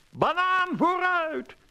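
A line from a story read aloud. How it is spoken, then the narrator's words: Called out. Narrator (Dutch): riep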